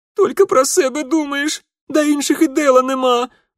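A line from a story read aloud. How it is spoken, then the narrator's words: Angry sobbing girl. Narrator (Russian): Зло размазывая слезы по щекам, всхлипнула девчонка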